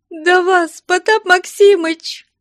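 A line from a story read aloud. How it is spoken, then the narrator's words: Tearful whiny voice. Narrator (Russian): отвечала она плаксивым голосом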